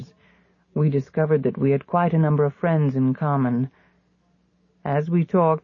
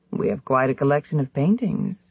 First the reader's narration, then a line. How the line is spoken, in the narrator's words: he said